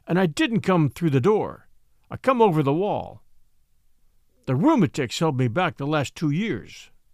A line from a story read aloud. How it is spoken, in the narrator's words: said old Ben dryly